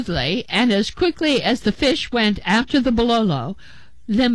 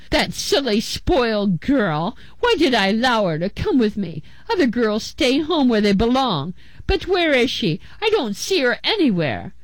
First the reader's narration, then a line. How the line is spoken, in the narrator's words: Themba's father grumbled